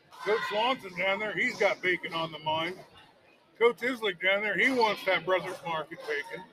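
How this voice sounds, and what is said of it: Hoarse, nearly lost voice. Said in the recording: “My voice is gone.”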